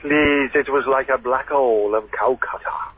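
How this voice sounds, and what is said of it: Put-on Welsh accent. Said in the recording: “You're not Welsh. ... I just thought I'd do an accent.”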